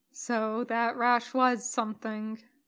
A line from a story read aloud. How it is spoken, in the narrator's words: Jim murmurs almost to himself